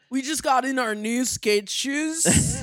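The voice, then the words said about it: Imitates a local skate-store employee. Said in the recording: “I'm really good at that impression. ... It's almost like you grew up here.”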